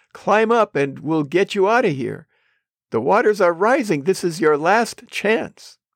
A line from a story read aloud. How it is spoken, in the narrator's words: They shouted